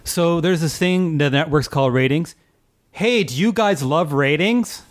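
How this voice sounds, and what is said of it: Imitates another person's voice. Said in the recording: “my Nate Berkus impression”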